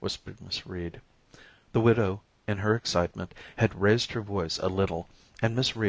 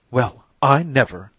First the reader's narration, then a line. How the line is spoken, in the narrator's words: exclaimed Mrs